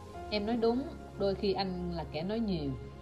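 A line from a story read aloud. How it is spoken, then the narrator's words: Calm, smiling agreement. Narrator (Vietnamese): kịp bình tĩnh lại, tôi mỉm cười và tán đồng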